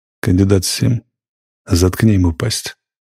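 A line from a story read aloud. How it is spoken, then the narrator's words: Even voice. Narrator (Russian): Ротмистр Чачу сказал ровным голосом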